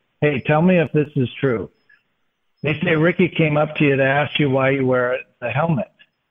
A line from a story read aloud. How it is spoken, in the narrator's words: Dave Niehaus kind of chuckling and he says